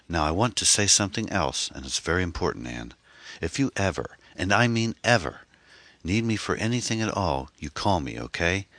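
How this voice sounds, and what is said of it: Emphatic, almost forceful voice. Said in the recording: “His voice was emphatic, almost forceful.”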